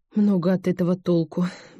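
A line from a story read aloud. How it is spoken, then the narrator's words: Sigh. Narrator (Russian): вздохнула она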